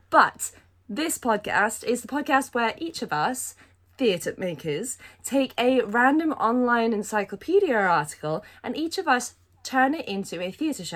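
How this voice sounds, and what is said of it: Hoarse voice with a cold. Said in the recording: “I've got a cold ... one or two coughs ... my voice is just harsh and hoarse”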